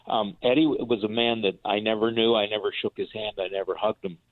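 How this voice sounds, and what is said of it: Emotional voice. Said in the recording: “I'm sorry, I'm a little emotional here.”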